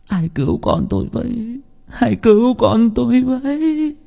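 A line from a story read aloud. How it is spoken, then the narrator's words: Sobbing, crying. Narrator (Vietnamese): Bà Hoa càng mếu máo khóc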